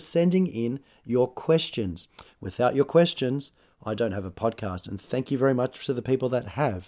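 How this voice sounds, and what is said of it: Husky, hoarse voice. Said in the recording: “my voice is a little bit husky today... I got sick... I sound like a very romantic man”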